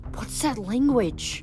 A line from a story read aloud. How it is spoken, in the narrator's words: I whispered